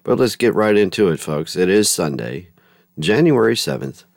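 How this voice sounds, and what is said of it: Weak voice recovering from illness. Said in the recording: “My voice is slowly trying to come back from my bout with COVID ... it's starting to get better”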